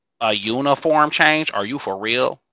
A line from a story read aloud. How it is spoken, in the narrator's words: Johns asked